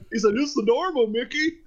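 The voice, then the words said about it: Goofy cartoon voice impression. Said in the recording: “my goof, my impersonation of Goofy.”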